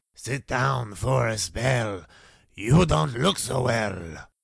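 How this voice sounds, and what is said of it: Spooky, slightly Latin-accented impression. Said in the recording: “Terrible impersonation ... very spooky, slightly Latin accent”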